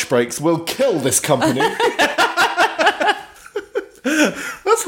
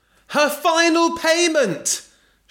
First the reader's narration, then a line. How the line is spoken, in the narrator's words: shouted Belinda